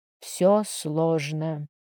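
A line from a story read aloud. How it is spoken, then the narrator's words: Strained muttering through teeth. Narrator (Russian): кое-как процедил он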